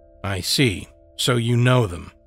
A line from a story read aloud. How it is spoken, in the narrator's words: I said sullenly